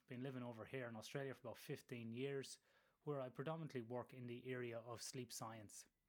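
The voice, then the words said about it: Irish accent. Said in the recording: “as you can tell from my accent, originated in Ireland.”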